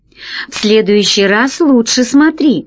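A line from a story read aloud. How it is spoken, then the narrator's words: Laughing. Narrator (Russian): рассмеялся Пашка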